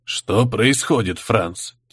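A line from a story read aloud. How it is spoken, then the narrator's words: Quiet question. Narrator (Russian): тихо спросил де Лаэрт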